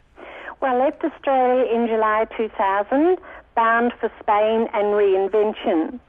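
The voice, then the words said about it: Australian accent. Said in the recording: “You sound like an Aussie,”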